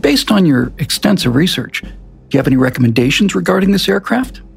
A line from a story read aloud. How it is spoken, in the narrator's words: he said calmly